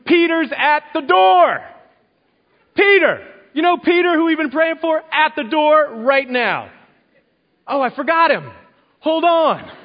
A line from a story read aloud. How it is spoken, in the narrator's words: she makes a scene and starts yelling